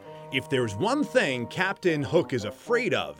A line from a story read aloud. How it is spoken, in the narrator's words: Peter said